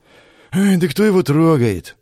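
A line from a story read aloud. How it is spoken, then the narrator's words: Sighing. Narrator (Russian): вздохнул я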